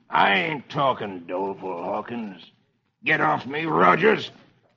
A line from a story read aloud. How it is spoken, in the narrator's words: The outlaw snarls